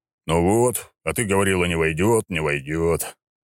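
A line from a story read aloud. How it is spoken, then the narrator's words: Satisfied grunt, deep voice. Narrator (Russian): удовлетворенно крякнул и пробасил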